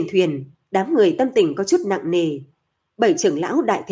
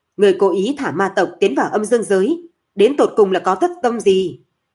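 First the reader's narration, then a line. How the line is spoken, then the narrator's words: Loud scolding. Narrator (Vietnamese): Vương Tiến lớn tiếng mắng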